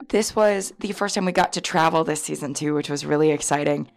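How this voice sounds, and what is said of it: Hoarse, mostly lost voice. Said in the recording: “I lost my voice ... I was yelling pretty much the whole time ... when I woke up on Saturday morning with no voice”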